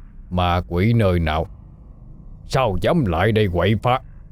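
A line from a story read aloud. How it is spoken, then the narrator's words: Stern, composed. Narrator (Vietnamese): Sau khi ổn định lại cảm xúc, ông Lợi mới nghiêm giọng lên tiếng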